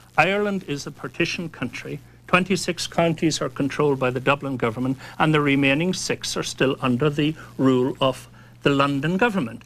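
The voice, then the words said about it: Irish accent. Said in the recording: “As you can tell, by my accent, does it sound as if I'm English or British, eh? ... I'm an Irish guy”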